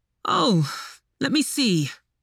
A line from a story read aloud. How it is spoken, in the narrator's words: said with a sigh